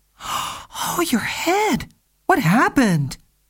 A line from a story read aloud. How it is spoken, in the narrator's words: exclaimed